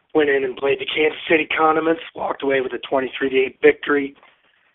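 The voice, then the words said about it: Hoarse, worn-out voice. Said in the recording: “I'm a little hoarse on a Monday after our victory in Kansas City.”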